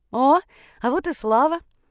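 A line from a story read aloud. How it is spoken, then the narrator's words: Joyful exclamation. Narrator (Russian): Радостно воскликнула мама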